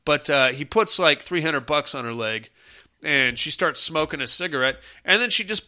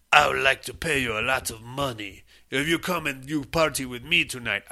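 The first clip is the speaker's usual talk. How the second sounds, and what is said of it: Put-on French accent. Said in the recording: “I don't know why I'm doing a French accent.”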